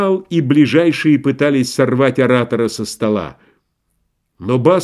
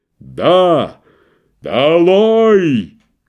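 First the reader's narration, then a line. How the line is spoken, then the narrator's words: Booming. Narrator (Russian): грянул он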